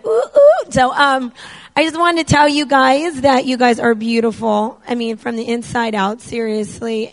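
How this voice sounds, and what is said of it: Hoarse, nearly lost voice. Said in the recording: “My voice is gone... it's really gone”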